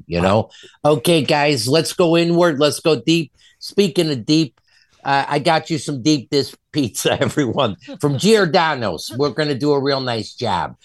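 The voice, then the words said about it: Exaggerated hardcore Chicago accent. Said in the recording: “he has a hardcore Chicago accent”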